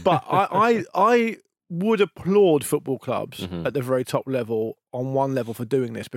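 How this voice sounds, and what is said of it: Sarcastic mock praise. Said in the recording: “as you can probably tell by my tone, this is also a fucking disgrace.”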